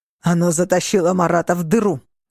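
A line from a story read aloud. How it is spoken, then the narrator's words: Barked. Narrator (Russian): рявкнул Стивен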